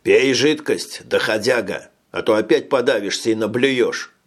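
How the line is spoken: Rough. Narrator (Russian): грубо произнес кто-то

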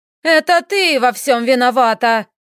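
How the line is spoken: Shouting. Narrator (Russian): закричала леди Марит

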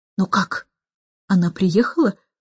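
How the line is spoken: Anxious whisper. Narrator (Russian): встревоженным шепотом спросил он

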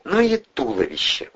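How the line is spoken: Admiring mutter. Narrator (Russian): восхищенно пробормотала Кристина

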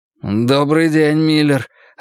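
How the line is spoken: Bewildered. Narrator (Russian): растерянно произнес Джерри

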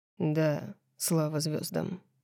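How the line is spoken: Muffled voice. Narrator (Russian): глухо сказал он

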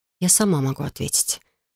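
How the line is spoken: Said quietly. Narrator (Russian): тихо произнесла я

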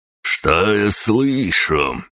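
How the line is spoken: Lazy drunken drawl, hiccup. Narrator (Russian): вальяжно протянул припегало и пьяно икнул

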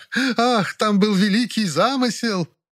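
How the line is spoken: Forced laughter. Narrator (Russian): деланно расхохоталась Фаина Георгиевна

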